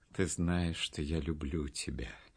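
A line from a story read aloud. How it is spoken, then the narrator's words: Tender. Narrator (Russian): сказал он ласково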